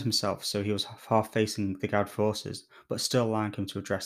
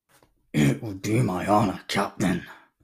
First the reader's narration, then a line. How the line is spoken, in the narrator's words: the sergeant growled back